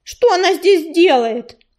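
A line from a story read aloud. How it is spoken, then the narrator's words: Angry shout. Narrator (Russian): крикнул грачик, сердито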